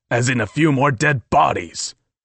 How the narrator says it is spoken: snapped

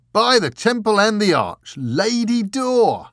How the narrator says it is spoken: The bearded mountain man roared

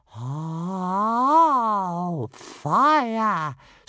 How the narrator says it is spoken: squealed Toothless in excitement

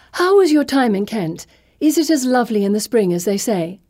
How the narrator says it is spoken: she says, far too cheerfully

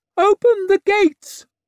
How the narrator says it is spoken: swallowed, then turned and screeched

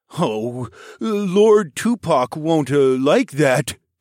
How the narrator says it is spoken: Sparrowhawk groaned

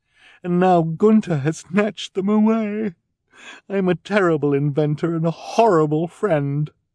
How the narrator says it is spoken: she said mournfully

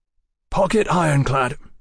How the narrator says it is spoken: he announced hoarsely

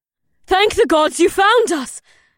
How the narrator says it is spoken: the warrior woman shouted, so her ears were probably still ringing from the rifle fire

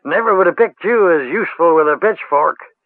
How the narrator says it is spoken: he shouted to Ged, and slapped his thigh, laughing

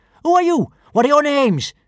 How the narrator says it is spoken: she demanded fiercely

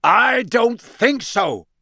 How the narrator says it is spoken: roared Moody

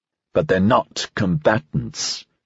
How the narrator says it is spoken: Dreyfus said testily

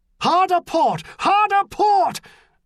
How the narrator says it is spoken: MacNeil shouted

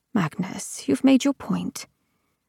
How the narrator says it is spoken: murmured

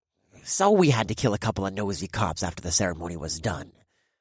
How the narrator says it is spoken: the first voice scoffed

